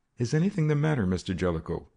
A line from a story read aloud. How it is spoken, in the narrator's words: Badger asked uneasily